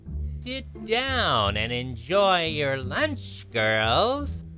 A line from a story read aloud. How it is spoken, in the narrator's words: a squeaky witch voice said